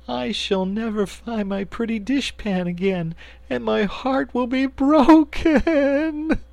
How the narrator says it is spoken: she sobbed

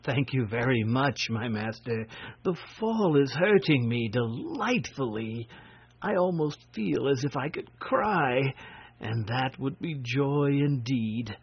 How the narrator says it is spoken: he gave a happy little laugh and said to the prince gratefully

